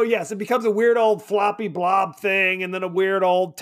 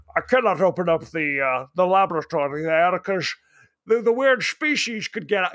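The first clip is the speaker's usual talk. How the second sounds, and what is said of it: Ben Kingsley impression, Sean Connery-like accent. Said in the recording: “Ben Kingsley's like, I can't open up. I don't know what accent I'm doing. Sean Connery.”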